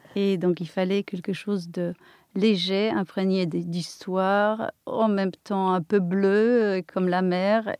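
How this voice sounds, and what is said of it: Polish accent. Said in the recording (French): “voilà mon accent polonais, compliqué.”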